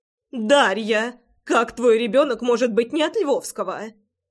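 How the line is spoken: Indignant shouting. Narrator (Russian): Возмущенно кричала Иолана

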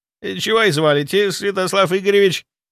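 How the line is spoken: Nervous babbling. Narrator (Russian): залепетал он

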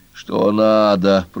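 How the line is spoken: Creaky voice. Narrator (Russian): проскрипела владелица кургана

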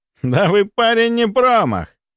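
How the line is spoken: Laughing loudly. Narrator (Russian): расхохотался Бестужев

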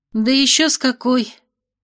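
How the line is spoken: Sighing in unison. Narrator (Russian): Феи одновременно вздохнули

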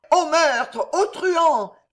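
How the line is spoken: Distant shouting voice. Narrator (French): cria une voix dans le lointain

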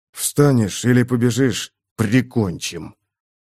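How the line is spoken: Contemptuous, through teeth. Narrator (Russian): Бросил сквозь зубы с презрением

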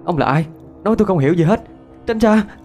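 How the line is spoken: Loud shouting. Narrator (Vietnamese): Tôi hét toáng

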